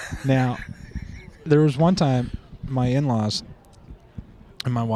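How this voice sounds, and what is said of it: Usual voice. Nothing is said of it.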